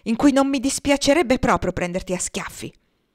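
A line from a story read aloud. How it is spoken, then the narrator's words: Deliberately loud exclamation. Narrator (Italian): esclamò con voce deliberatamente alta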